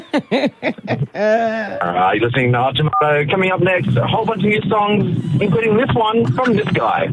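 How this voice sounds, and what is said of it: Radio announcer impression. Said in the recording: “pretend to be a radio announcer ... your best radio impression”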